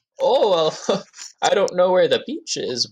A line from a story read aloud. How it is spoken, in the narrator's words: she's very like nervous and giggly and bubbly